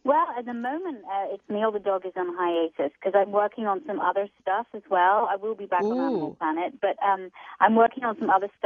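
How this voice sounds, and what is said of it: Beautiful accent. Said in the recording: “You have the most beautiful accent.”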